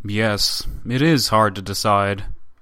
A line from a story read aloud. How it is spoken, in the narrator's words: the up-to-now silent Tatischev, who added gravely